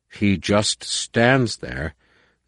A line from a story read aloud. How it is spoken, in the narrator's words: Numanor growled